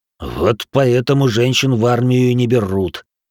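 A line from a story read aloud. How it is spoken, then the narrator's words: Genuinely angry grumble. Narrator (Russian): с неподдельной злостью проворчал Бенджиро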